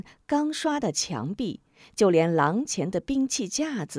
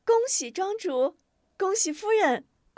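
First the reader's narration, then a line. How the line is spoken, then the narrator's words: Chattering, laughing congratulations. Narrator (Chinese): 姑娘媳妇们叽叽喳喳的嬉笑祝贺声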